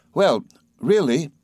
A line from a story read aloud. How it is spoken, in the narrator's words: said Traddles cheerfully